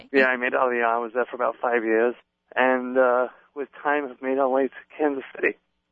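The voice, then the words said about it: British English accent, slightly faded. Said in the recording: “he's got an English accent ... You've got a British accent. ... It's fading a little, but it's still there. ... I think you sound pretty English.”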